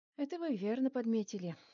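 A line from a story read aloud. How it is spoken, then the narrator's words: Sigh. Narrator (Russian): вздохнул Лазурит Владимирович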